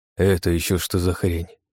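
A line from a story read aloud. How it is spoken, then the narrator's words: Muttered. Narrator (Russian): пробормотал Сэм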